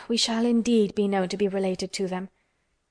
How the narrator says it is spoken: sighed Anne

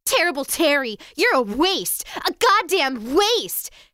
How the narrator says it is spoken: his guidance counselor, Ernest Aaron, shouted at him

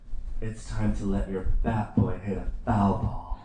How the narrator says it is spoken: she leaned over and whispered hotly in his ear

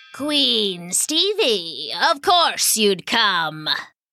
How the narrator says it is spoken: sneered Warvalo the wizard

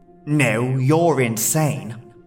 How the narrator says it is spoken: the figure said in a disgusted tone

